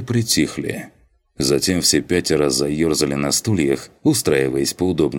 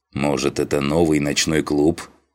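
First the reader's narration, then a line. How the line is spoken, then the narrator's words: Snorting, amused. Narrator (Russian): хмыкнул Дженнифер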